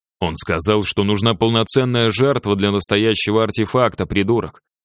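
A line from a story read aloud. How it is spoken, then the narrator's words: Barked, slightly hysterical. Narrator (Russian): рявкнул боцман, его голос звучал немного истерично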